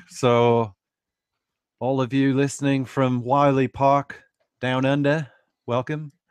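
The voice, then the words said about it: Terrible put-on Australian accent. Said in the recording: “terrible accent”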